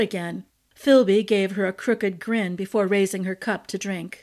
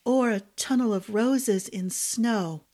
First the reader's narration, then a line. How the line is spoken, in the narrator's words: Ash murmured